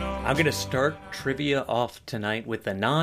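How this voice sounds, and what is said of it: Usual voice. Nothing is said of it.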